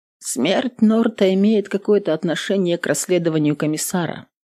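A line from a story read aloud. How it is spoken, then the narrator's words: Flat uninterested question. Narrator (Russian): Бесцветным голосом спросила женщина без малейшего интереса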